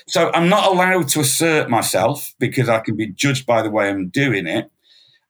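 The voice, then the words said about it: Northern English accent. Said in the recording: “I have a northern accent”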